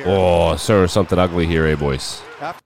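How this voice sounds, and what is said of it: Put-on hockey commentator accent. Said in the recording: “I love the hockey accent. It's the best. The hockey accent is the best.”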